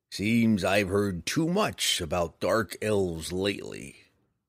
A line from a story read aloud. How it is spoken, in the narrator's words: the bounty hunter grumbled